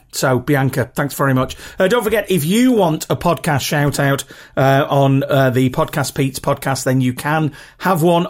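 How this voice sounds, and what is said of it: Rough regional British accent. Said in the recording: “I really love your accent ... my accent is nothing particularly special. You know, it's pretty rough, to be honest. And I'm not speaking, you know, like the Queen's cut English. It's very regional”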